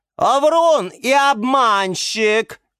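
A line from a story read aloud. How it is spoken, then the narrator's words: Shriek. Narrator (Russian): визжала Орхидея Галатея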